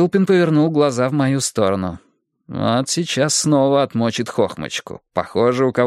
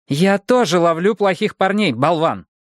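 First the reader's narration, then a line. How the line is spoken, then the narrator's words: Irritated hiss. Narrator (Russian): раздраженно прошипела она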